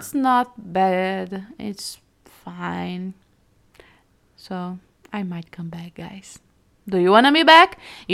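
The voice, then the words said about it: Non-native English accent. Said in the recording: “to hear my accent, to just hear my mistakes in English”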